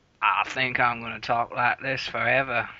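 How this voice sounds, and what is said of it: Put-on Southern US drawl. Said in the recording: “We need a southern drawl in our podcast... this weird accent that sounds sort of like a Texan, sort of like this other thing that comes from the States... I'm pretty sure that's Alabama that you're channeling right now.”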